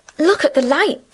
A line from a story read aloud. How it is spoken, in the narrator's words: exclaimed